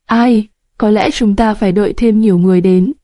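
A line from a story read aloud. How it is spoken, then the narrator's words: Sighing. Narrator (Vietnamese): Hình Chỉ thở dài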